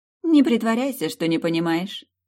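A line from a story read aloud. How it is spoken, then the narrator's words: Ringing, bell-like laugh. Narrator (Russian): колокольчиком засмеялась она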